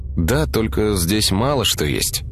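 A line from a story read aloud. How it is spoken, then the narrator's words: Uncertain drawl. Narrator (Russian): неуверенно протянул он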